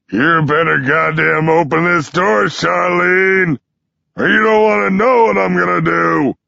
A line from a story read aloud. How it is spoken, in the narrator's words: He stops pounding his fist against the door to yell